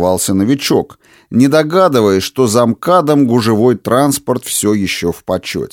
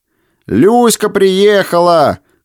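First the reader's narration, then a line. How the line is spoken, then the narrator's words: Someone shouting. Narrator (Russian): кричал кто-то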